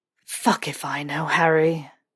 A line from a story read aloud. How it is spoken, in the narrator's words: Snape breathed